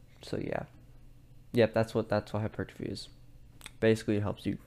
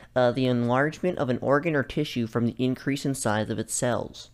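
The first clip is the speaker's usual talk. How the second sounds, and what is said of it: Put-on technical reading voice. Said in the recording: “my technical voice.”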